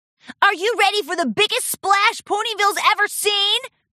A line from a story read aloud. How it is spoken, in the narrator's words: Rainbow Dash hollered